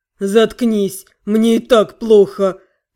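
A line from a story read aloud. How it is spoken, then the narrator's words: Moaned. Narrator (Russian): простонал рядом братец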